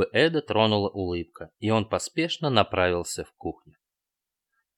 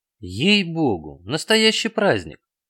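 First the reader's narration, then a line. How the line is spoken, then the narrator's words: Exclaimed. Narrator (Russian): воскликнул Эд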